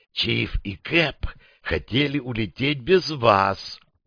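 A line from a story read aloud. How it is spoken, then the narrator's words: Whispering. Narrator (Russian): снова перешла на шепот буханка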